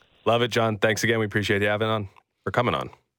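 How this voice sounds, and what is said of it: Emotional, mumbled marble-mouthed speech. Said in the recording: “little emotional ... having the marble mouth there”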